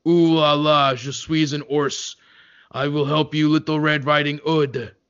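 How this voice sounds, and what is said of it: Put-on French accent. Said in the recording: “a bear that could only speak in a French accent ... So the French bear was like”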